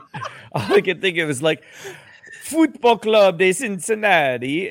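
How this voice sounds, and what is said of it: Put-on Italian Mario accent. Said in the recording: “The great Mario accent. That was a great Mario accent.”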